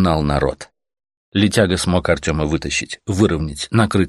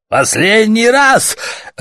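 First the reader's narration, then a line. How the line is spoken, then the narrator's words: Harsh bark. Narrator (Russian): рявкнул свинолуб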